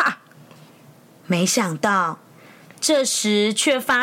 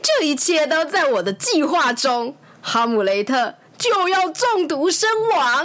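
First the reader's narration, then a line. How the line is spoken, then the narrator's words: Smiling. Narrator (Chinese): 克劳迪露出微笑，说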